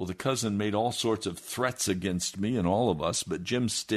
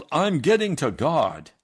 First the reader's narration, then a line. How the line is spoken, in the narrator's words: Jim yelled